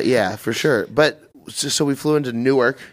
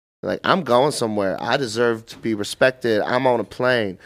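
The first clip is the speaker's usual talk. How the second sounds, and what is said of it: Put-on mocking accent. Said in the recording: “Don't do the Spirit accent, bro.”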